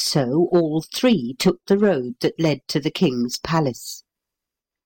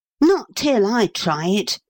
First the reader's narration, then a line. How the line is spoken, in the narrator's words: cried Paul